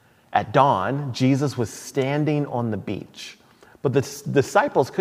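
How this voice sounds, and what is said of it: Usual voice. Nothing is said of it.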